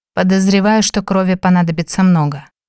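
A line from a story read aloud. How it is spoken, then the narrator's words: Dejected sigh. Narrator (Russian): вздохнул, удрученно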